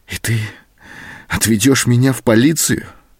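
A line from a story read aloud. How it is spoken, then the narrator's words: Trembling female voice. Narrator (Russian): спросила она дрогнувшим голосом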